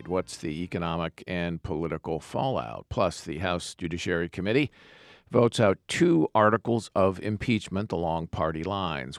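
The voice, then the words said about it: Hoarse voice. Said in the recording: “except for my hoarse voice.”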